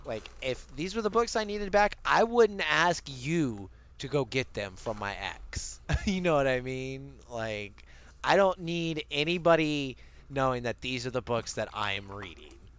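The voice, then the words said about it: Bad Southern accent. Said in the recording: “bad Southern accent”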